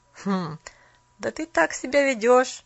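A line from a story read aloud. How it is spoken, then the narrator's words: Young lad laughing again. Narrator (Russian): Паренек засмеялся опять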